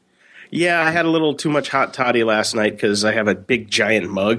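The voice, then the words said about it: Husky, rough voice. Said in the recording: “besides being sick and hungover ... I got my sexy voice on”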